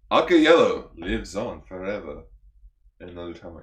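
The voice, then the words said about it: Put-on Spanish accent. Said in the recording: “turn off Spanish accent”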